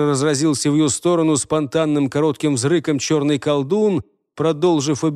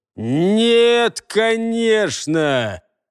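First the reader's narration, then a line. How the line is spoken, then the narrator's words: Mocking drawl. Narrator (Russian): насмешливо протянул ему Джаргул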